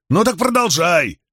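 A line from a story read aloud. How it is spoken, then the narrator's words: Barking. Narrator (Russian): рявкнул Самнит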